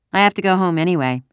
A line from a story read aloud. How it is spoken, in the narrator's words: Ellen said